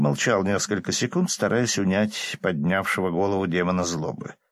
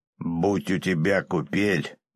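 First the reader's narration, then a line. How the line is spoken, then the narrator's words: Declaration turning to growl. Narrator (Russian): заявил он, переходя на рычание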